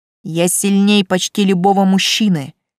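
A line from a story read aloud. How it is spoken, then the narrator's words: Gloating growl. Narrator (Russian): прорычала я, наслаждаясь своей внезапной властью над этим низшим существом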